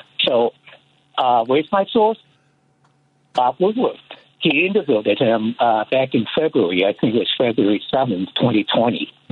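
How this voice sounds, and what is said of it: Foreign accent. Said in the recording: “I'm a foreigner, okay? I speak with an accent”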